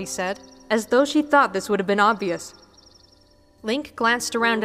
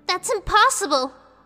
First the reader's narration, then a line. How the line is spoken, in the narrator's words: Navi gasped